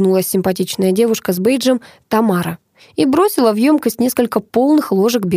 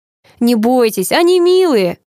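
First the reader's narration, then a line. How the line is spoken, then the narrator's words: Laughing. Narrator (Russian): засмеялась менеджер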